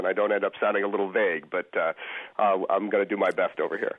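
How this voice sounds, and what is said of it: Slightly froggy voice from cold. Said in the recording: “I've got a little bit of a cold ... if I sound a little froggy”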